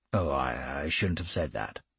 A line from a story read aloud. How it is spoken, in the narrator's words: he mumbled